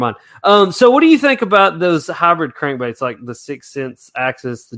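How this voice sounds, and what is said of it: Usual voice. Nothing is said of it.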